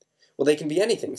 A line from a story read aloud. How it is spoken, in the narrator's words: said Mr